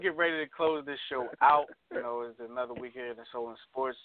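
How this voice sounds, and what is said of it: Hoarse, strained voice. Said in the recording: “I'm losing my voice if you can't tell. I've lost my voice.”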